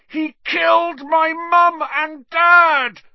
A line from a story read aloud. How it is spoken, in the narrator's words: Harry roared